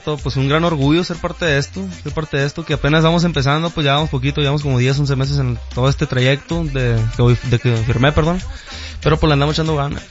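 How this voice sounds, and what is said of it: Regional Mexican accent. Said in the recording (Spanish): “ya sabe que ven el acento”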